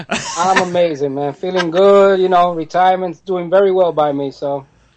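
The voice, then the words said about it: New York accent. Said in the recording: “Listen to the accents when you two talk with each other ... the real New York accents ... real New York accents are coming out”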